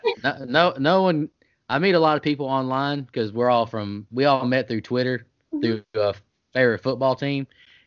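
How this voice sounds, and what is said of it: South Georgia accent. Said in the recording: “I got that South Georgia accent. ... Yeah, he does.”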